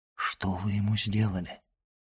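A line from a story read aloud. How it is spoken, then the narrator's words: Whispered question. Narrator (Russian): шепотом спросил он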